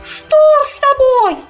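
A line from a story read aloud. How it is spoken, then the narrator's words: Frightened shout. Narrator (Russian): крикнула испуганная березка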